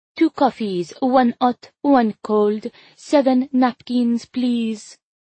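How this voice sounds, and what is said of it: Affected French accent. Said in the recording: “voice pitches an affected French accent that mimics Elisa's”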